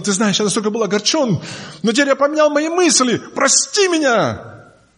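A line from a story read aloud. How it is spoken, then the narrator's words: Shouting. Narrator (Russian): А тот бы кричал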